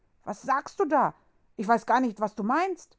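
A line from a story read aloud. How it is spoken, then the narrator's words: Called out. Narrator (German): rief er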